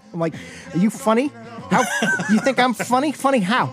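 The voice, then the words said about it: Imitates another person's New York accent. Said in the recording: “This is Joe Pesci ... New York accent”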